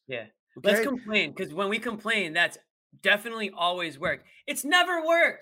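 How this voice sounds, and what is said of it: Yelling, raised voice. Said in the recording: “Sorry if I'm yelling,”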